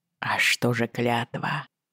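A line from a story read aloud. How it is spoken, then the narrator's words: Quiet question. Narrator (Russian): негромко спросил Джейми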